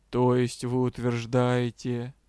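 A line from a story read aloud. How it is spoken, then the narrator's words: Quiet, doubtful, incredulous question. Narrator (Russian): сомнение, затем неверие, удивление, а после лорд тихо спросил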